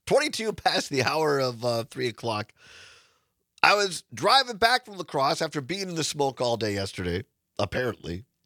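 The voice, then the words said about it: Slightly raspy voice. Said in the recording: “My voice is a little raspy because I was out in the smoke yesterday”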